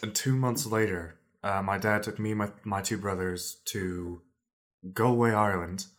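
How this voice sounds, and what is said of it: Striking, distinctive accent. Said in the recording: “So your accent is incredible.”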